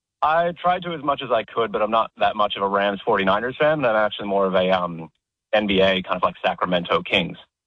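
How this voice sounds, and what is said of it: Convincing put-on American accent. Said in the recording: “It's an effortless accent. It's effortless ... an Aussie putting on an American accent”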